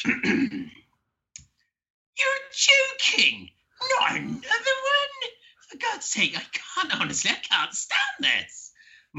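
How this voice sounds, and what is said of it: Imitates another person's voice. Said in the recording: “I'm going to try and do an impersonation of them.”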